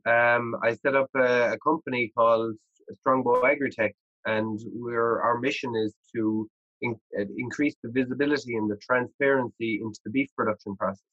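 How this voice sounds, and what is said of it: Irish accent. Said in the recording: “maybe you might be able to deduce from my accent and my name that I'm not a native to Canada. So I'm actually just, I'm from Ireland.”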